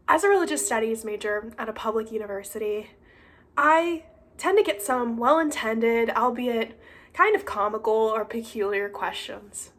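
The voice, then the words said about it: Weak, not fully recovered voice. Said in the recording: “my voice is not completely there”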